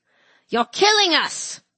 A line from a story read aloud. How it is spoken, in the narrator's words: he spat